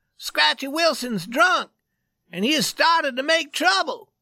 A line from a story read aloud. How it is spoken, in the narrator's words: He cried